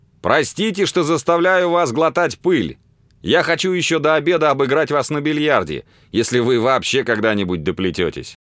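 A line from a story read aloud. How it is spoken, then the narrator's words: Cheerful shout. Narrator (Russian): весело крикнул ему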